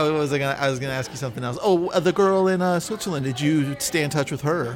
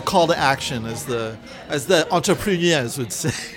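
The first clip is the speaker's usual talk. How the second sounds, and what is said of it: Put-on accent. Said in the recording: “nice accent”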